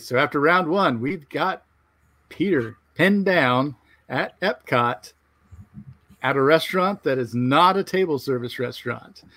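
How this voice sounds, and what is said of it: Game show host voice. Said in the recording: “Do I have my game show voice going pretty well? ... It sounds really good.”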